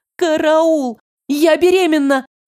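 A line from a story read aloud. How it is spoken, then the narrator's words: Frightened outcry. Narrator (Russian): выкрикнула я с перепугу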